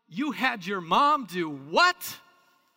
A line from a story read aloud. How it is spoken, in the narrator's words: boisterous Peter again exclaiming